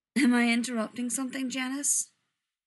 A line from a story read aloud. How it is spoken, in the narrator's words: Dean asks, yawning